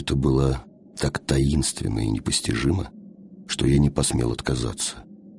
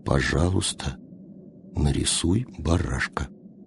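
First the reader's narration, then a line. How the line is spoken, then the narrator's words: Quiet, very serious request. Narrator (Russian): он опять попросил тихо и очень серьезно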